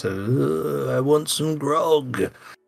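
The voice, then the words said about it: Silly put-on character voice. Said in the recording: “do a stupid voice.”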